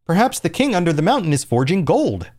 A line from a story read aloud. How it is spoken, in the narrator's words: said another